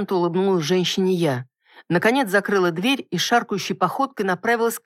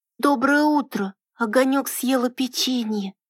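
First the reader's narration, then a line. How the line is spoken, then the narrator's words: Hoarse sleepy child mumbling. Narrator (Russian): сиплым ото сна голосом пробормотал ребенок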